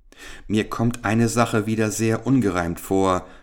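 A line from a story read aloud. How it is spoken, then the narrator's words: Plain. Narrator (German): sagte Richard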